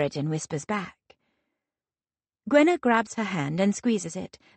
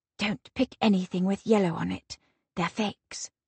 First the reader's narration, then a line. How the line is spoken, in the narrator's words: As I do, I whisper